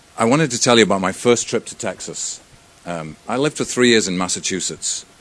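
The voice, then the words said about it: British accent. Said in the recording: “You'll be able to tell by my accent that this is a British guy standing in front of you.”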